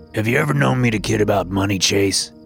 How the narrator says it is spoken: Grandpa said, his voice a stern growl

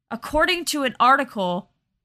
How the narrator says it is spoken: Jose Perdomo shouted at Mark from across the front lobby

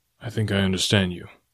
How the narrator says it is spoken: he replied quietly

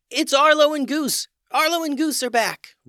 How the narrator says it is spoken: Shouts of

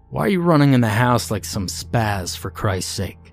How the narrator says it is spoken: exclaimed my father

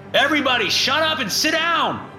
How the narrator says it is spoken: I shout out, my voice bouncing off the finely constructed wood ceiling

